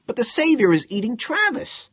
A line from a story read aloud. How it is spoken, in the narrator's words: another of the Earth persons exclaimed